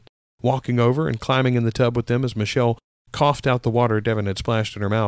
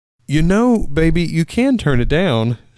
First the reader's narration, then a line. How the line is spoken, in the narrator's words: she giggled